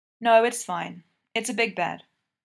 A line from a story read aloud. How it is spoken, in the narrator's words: PK says